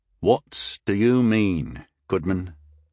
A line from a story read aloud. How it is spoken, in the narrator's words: asked Tyndall slowly